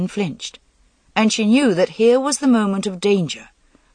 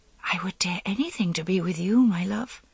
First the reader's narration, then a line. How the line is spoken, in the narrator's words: She murmured, as artlessly as she could